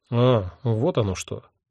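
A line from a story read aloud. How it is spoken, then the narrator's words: Curt mutter. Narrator (Russian): буркнул мой невидимый собеседник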